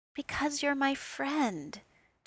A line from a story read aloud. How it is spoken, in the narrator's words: Tony said, his voice soft